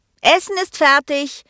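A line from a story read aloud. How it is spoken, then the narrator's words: Calling upstairs. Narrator (German): rief sie dann nach oben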